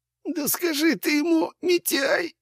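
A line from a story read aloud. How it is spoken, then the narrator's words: Moaning. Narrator (Russian): застонал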